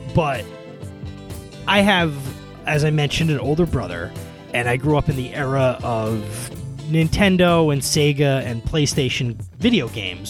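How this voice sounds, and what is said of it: New York area accent. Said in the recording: “as you might be able to tell from my accent, I grew up in the suburban New York area”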